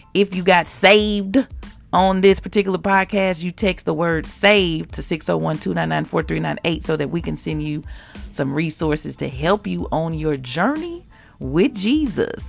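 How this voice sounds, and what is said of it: Unusually deep voice. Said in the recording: “My voice is really deep today, isn't it, y'all? ... Ooh-wee, McGruff. ... the crime dog”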